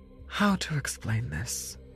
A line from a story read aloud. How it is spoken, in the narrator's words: Agatha said with a sigh